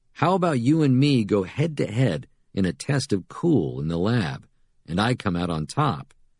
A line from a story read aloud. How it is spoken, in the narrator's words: Manic laughter